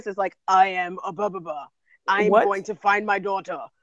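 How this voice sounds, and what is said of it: Imitated deep male voice. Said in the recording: “that man with the deep voice”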